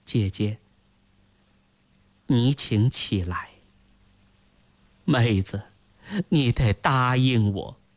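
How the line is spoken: Soft, gentle. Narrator (Chinese): 轻声说道

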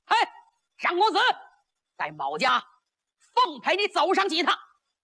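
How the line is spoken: Loud shout. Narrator (Chinese): 就听有人大喊一声

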